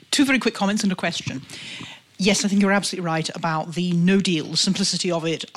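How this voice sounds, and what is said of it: British accent. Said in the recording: “as my accent might give away, I'm a Brit”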